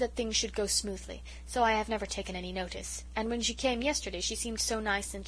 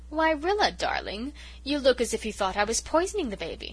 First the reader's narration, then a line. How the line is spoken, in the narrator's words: she said, oh so sweetly